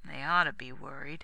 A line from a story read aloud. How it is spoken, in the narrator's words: said wearily